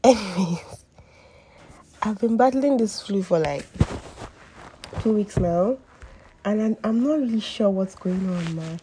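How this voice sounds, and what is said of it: Husky, hoarse sick voice. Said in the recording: “apologize for my voice. I know I sound different. ... my voice probably sounds very husky ... my new voice”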